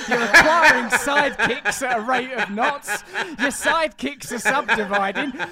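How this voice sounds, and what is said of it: Yelling, loud ranting voice. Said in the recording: “stop yelling”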